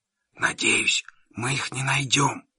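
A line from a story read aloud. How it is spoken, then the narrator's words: Whispered. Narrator (Russian): я прошептал Джо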